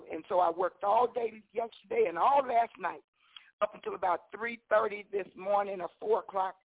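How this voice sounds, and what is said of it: Slightly raspy voice. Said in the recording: “my voice sounds a little raspy”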